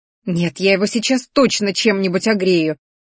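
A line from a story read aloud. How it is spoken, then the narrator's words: Female growl. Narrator (Russian): рыкнула Ди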